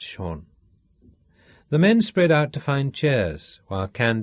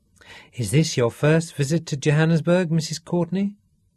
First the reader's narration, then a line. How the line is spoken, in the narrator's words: Candy smiled sweetly